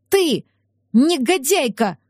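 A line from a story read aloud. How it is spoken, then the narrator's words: Exclaiming woman. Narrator (Russian): воскликнула Рози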